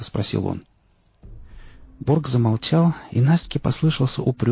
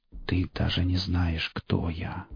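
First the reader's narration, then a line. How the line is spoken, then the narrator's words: Barely audible. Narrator (Russian): едва слышно произнес голос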